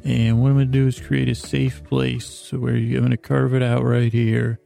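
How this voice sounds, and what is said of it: Plain, drifting, drowsy monotone. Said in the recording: “in my plain drifting voice”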